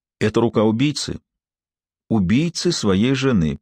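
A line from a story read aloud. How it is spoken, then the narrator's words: Solemn. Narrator (Russian): произнесла торжественно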